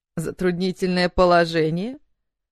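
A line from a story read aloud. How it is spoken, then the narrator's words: Snide mimicking. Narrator (Russian): передразнил он ее ехидно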